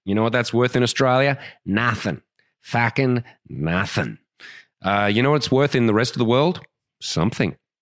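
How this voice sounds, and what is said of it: Australian accent. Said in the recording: “my Australian accent ... you sound like someone who's destroyed the English language”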